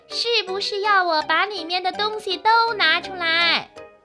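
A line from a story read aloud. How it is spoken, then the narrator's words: Loud shout. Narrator (Chinese): 小拇指大声地喊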